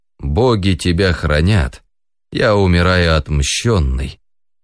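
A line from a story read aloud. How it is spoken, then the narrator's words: Dying last sigh. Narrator (Russian): вздохнул в последний раз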